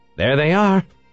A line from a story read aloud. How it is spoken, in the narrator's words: he exclaimed